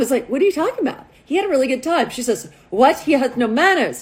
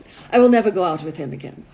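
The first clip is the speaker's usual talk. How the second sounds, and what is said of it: Put-on Russian accent. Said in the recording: “This is my best Russian accent.”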